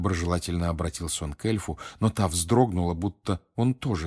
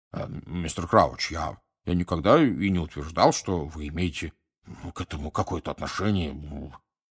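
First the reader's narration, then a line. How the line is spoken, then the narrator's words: Embarrassed mumble. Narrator (Russian): пробормотал Амос Диггери пунцово краснея за своей косматой бородой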